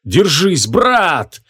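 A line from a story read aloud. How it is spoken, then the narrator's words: Roared. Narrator (Russian): проревел Кушит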